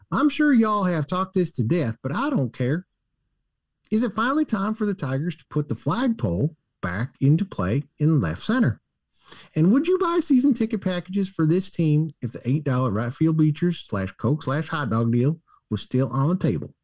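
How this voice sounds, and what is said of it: Put-on Southern American man's accent. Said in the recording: “Should I say it with a Southern accent? ... That's actually a really good accent. ... Your Southern man accent is much better than your Southern woman accent.”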